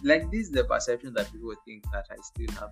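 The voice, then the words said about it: Hybrid British, Canadian and Kenyan accent. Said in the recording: “this is my English. It's very hybrid, British, Canadian, and Kenyan”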